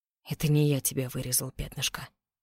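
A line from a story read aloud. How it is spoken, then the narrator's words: Plain. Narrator (Russian): сказал Роу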